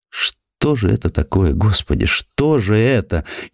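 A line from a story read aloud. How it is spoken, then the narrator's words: Whispered. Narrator (Russian): Шептала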